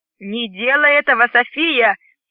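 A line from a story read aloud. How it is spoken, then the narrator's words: Shout. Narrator (Russian): крикнул Грин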